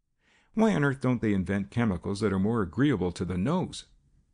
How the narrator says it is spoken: Jasper Cole laughed quietly

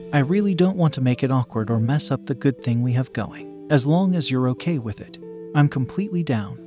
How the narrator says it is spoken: I said

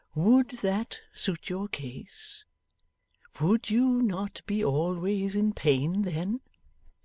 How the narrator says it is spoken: asked the old man tenderly

